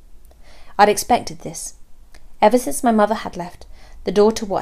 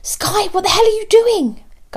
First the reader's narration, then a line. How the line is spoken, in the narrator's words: gasped Belle, in horrified fascination